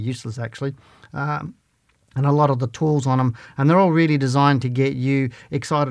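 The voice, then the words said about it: Slightly croaky voice. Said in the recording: “my voice is a little bit croaky tonight”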